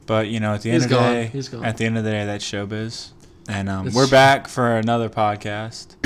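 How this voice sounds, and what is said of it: Flat, unenthusiastic monotone delivery. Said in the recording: “You don't sound enthusiastic whatsoever. ... You sound very monotone.”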